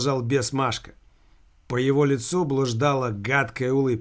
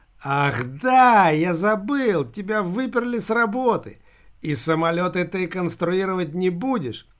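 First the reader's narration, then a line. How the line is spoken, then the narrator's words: Loud mocking guffaw. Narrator (Russian): бес громко заржал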